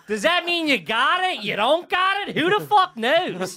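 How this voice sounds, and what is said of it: Strong Philadelphia accent. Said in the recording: “you just dropped that hardcore Philly ... I fall back in”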